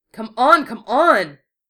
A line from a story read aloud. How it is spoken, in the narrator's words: A shout from further down the alley